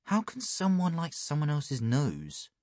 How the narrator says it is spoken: mumbled

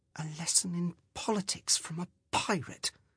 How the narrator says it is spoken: Skara muttered to herself

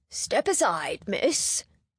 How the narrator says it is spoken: a polished voice said in low but cheerful rumbles

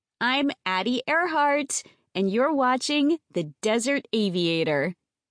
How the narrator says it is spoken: she laughs

